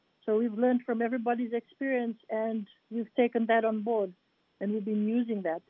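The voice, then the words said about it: Fijian accent. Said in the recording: “accent sounds like you are from Fiji”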